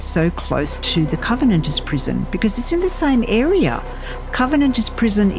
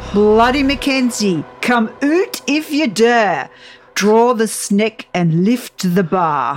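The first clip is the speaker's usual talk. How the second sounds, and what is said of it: Put-on Scottish accent. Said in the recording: “here comes her Scottish accent ... I am going to butcher this”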